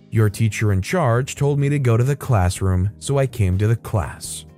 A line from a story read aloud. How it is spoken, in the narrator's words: I was angry, but in a calm voice, I said